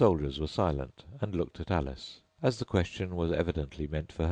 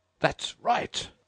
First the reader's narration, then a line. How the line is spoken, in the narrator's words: shouted the Queen